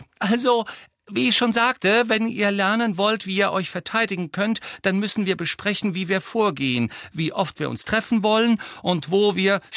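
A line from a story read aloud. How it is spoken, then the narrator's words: Very high-pitched voice. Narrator (German): sagte Hermine wieder mit sehr hoher Stimme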